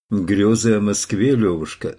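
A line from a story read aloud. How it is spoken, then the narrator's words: Plain. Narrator (Russian): сказал флорентиец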